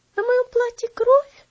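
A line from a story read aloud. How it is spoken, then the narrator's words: Frightened exclamation. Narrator (Russian): воскликнула Элси испуганно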